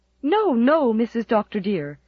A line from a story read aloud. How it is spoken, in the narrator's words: exclaimed Susan, turning a deep brick red from shame